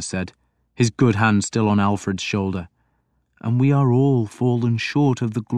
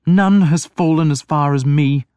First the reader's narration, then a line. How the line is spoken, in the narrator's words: Alfred moaned